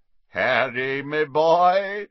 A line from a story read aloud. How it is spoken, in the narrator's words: said a booming voice